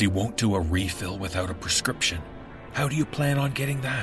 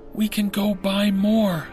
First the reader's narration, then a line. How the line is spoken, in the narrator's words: said pleadingly